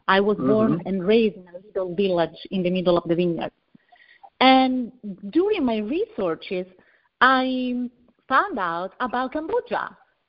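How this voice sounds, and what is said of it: Italian accent in English. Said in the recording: “I'm from Italy, as you can hear from my accent.”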